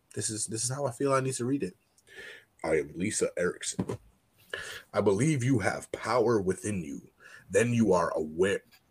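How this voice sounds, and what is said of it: Put-on deep reading voice. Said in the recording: “deep voice ... this is the voice I'm going to read it in ... You're doing Lisa's voice right now?”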